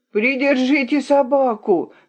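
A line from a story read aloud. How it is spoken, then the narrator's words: Yelling. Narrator (Russian): заорал Авель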